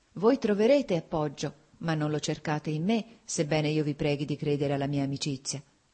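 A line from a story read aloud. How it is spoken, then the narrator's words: Sighing woman. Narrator (Italian): ella disse con un sospiro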